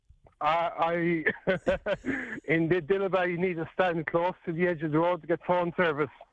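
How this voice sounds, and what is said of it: Non-local accent. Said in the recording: “I'm not a local, as you can tell by my accent.”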